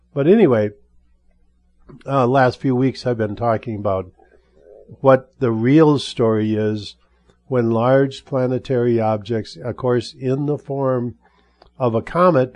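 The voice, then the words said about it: Weak, strained voice. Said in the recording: “I'm still dealing with this voice thing. And so my voice is a bit weak. I'm trying to sustain it.”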